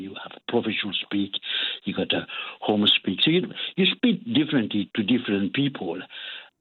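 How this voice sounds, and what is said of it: French accent. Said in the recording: “quite clearly, you're French. So how does that go in Scotland, your accent?”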